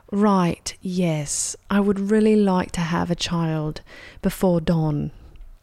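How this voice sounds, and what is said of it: Put-on English accent. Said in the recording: “Can you do English? ... That's good. That was good.”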